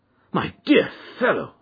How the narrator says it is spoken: I cried

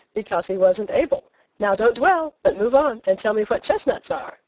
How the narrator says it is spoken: I said teasingly

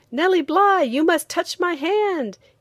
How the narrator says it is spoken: he said excitedly

